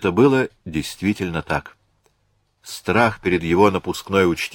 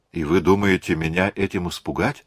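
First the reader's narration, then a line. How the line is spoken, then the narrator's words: Plain. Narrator (Russian): сказала Марианна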